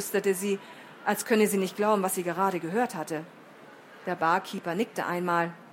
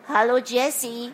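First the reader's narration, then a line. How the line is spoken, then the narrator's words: Cautious nasal greeting. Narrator (German): begrüßte er sie vorsichtig mit seiner nasalen Stimme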